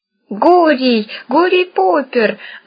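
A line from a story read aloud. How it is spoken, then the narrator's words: Crowd howling. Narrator (Russian): взвыла толпа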